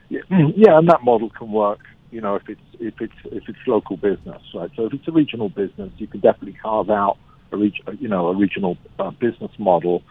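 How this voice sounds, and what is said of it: Noticeable foreign accent. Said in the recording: “please don't be fooled by this accent.”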